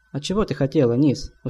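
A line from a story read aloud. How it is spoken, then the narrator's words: Tired reply. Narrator (Russian): устало ответил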